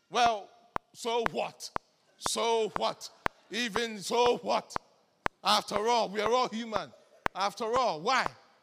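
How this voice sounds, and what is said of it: Put-on accent. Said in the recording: “Maybe not in that accent”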